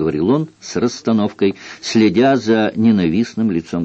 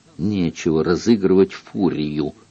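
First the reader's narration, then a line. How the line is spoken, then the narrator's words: Angry hiss. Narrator (Russian): злобно прошипел он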